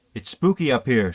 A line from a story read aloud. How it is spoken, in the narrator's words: she said